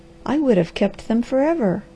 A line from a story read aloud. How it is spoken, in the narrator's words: cried the girl